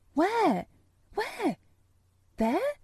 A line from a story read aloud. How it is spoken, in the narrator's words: he cried